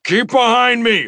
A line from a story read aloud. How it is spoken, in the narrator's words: I shouted to Kao Ren and his family